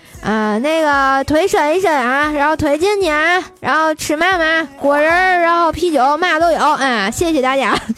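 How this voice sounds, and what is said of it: Imitated train attendant's regional accent. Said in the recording (Chinese): “乘务员说话都是怪兽的口音，萌萌哒 ... 是不是这个味儿的啊？”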